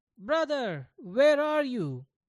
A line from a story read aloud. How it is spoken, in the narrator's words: he shouted